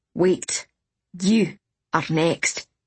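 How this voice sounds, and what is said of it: Very thick foreign accent. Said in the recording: “She had the thickest accent of any Ikori I'd met so far, but it still didn't resemble that of the thieves in Constancy.”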